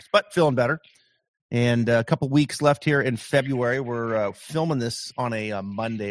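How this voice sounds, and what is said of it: Voice slightly altered by a cold. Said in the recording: “if I sound a little different today. I'm just getting over a little virus cold”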